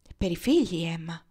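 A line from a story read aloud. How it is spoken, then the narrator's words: Happy mother, grave and gentle. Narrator (Italian): disse gravemente e dolcemente la madre felice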